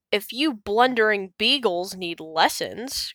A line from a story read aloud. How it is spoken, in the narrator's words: grumbled Mayor Humdinger